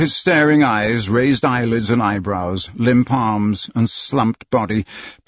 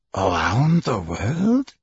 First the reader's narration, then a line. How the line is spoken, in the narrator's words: muttered